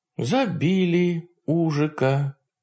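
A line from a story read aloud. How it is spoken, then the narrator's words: Sad, flat statement. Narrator (Russian): печально констатировала моя спутница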